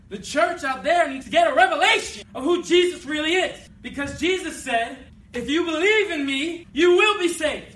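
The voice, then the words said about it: Yelling, loud preaching voice. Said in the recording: “sorry I'm yelling”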